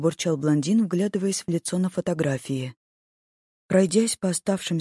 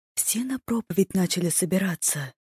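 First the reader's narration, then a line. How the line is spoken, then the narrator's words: Quiet. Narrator (Russian): тихо сообщила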